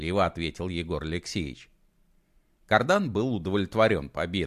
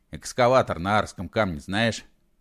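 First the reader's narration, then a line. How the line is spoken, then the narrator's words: Plain question. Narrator (Russian): спросил он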